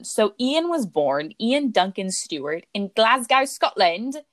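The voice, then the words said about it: Poor attempt at Scottish accent. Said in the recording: “That wasn't a good accent. I'm so sorry to all of our Scottish ... listeners.”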